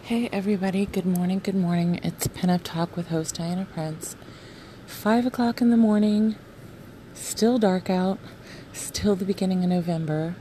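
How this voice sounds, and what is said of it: Shaky early-morning voice. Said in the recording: “My voice is always going to be shaky at 5 o'clock in the morning. Have not used my vocal cords in a while.”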